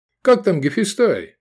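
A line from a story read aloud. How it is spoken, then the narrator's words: Cheerful chattering. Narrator (Russian): весело балаболил Сергей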